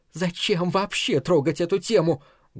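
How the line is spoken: Very quiet, voice breaking. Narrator (Russian): Голос ее сорвался, хотя говорила она очень тихо

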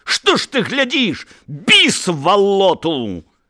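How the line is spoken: Shout cut off. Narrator (Belarusian): ён не паспеў яшчэ крыкнуць да канца

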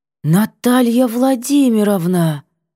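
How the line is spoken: Stunned, strained words. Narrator (Russian): выдавила ошарашенно

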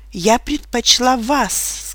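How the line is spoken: Tender. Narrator (Russian): сказала я нежно

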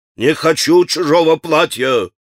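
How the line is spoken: Menacing shout. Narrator (Russian): грозно закричал он

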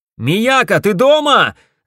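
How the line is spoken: Shouted. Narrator (Russian): закричал я

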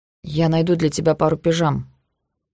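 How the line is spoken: Soft. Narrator (Russian): мягко сказал Эш

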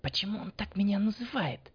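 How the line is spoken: Whispered, young woman. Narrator (Russian): шепнула девушка

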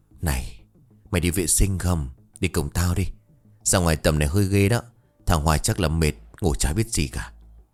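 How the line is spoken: Soft. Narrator (Vietnamese): Thịnh khẽ bảo

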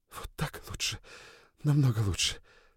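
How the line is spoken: Whisper. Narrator (Russian): прошептала она

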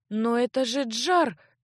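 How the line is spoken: Bewildered babbling, countess. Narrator (Russian): растерянно пролепетала графиня

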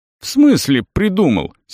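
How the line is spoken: Young man's angry question. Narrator (Russian): сердито переспросил юноша

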